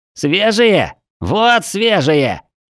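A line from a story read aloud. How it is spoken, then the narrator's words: Shouted. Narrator (Russian): Прокричав, коротышка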